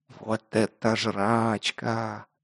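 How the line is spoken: Reverent whisper. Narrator (Russian): благоговейно прошептал непосредственный Лок

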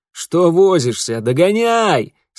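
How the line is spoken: Laughing shout. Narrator (Russian): со смехом крикнул отец

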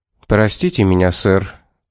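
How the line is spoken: Serious tone. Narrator (Russian): проговорил Томас серьезным тоном

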